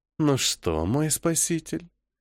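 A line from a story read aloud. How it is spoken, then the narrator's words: Soft, hoarse voice. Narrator (Russian): Мягким хриплым голосом произносит Жанна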